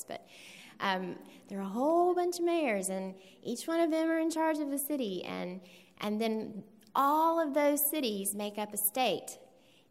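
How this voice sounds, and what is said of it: Voice used for talking to kindergarteners. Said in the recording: “in my kindergarten voice,”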